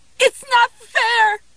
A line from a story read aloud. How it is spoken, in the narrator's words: She screamed